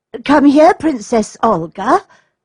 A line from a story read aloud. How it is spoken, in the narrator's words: cried the nurse